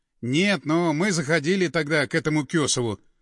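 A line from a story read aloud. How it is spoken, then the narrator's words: Calm reply. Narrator (Russian): спокойно ответил Андреев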